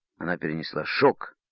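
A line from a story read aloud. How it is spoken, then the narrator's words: Angry. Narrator (Russian): сердито сказал Тим капитану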